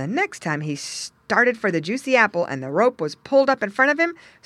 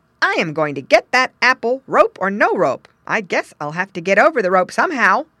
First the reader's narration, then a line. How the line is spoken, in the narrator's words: exclaimed Squinty to himself